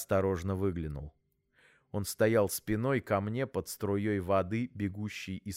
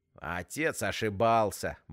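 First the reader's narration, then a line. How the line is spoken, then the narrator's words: Mocking remark. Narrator (Russian): бросил Вовка насмешливо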